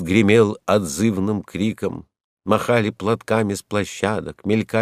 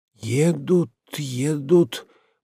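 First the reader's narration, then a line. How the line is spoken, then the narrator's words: Excited trembling mutter. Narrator (Russian): бормотал он, чувствуя дрожание и зуд во всем теле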